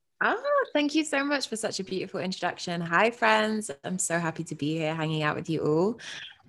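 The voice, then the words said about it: British accent. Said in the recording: “as you may be able to tell from the accent, I'm from the UK”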